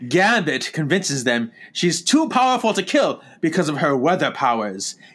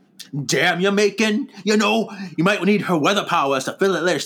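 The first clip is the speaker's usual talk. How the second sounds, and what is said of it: Half-hearted Gambit impression. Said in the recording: “doing a Gambit impersonation ... I'm always like half-assing it”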